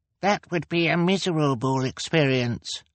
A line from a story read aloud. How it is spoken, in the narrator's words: Klaus said, in the highest voice he could manage